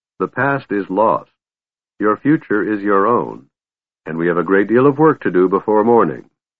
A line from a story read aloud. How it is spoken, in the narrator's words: he said coldly